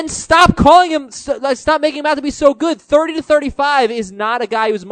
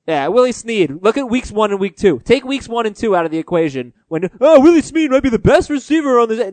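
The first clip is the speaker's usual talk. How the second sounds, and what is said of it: Imitates fantasy football analysts' voices. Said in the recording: “impersonation is spot on ... impersonating like all 4 analysts”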